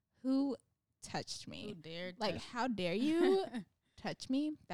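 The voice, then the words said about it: Exaggerated white girl voice. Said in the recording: “That was kind of like my white girl voice.”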